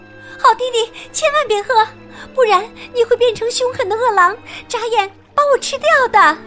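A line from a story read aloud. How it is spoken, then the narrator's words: Urgent shout. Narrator (Chinese): 小姐姐赶紧大喊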